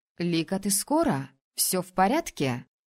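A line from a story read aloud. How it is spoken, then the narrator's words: Worried question. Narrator (Russian): взволнованно спросила Сай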